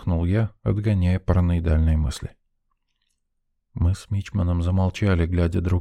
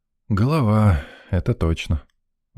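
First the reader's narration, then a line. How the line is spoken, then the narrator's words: Sigh. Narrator (Russian): вздохнул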